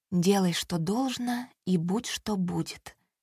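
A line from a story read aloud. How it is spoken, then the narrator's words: Whisper. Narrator (Russian): прошептала Маша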